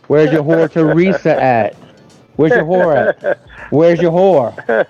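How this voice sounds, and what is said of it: Drawly Southern US accent. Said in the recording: “That fucking drawly southern accent there, hillbilly boy?”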